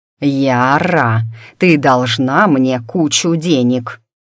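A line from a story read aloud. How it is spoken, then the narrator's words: Growling. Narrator (Russian): прорычал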